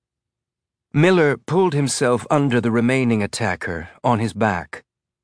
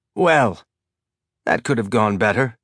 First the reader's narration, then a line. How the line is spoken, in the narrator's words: Miller said